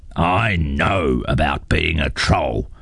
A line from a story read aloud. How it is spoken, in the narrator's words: grunted his father